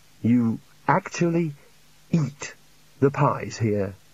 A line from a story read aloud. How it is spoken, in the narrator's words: he said mournfully